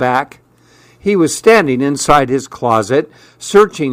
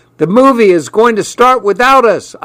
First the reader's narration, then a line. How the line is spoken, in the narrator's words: I yelled